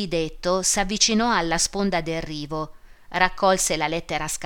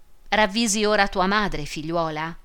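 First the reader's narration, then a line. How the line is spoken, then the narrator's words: Mildly reproachful question. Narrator (Italian): domandò in tono di rimprovero, ma più blando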